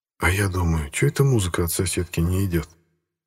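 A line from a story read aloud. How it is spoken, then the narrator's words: Whisper, ambiguous smile. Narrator (Russian): прошептал Стас, двусмысленно улыбаясь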